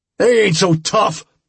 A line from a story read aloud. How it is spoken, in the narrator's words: bellowed angrily